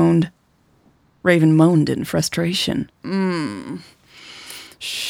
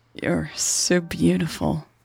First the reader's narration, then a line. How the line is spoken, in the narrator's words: Raven said, her voice hoarse